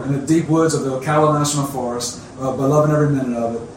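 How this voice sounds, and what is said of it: Cajun South Louisiana accent. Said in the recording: “my cultural background as a Cajun. If you always can tell by the accent, I am originally from South Louisiana.”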